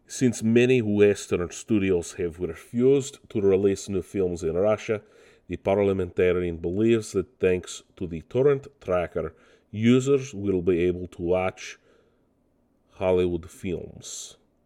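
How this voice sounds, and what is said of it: Mock Russian accent. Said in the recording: “just Russians coming in and taking over my podcast too, apparently. It's not even my best accent. I've done better.”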